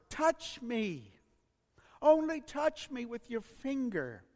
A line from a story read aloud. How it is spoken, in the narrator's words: the young boy pleaded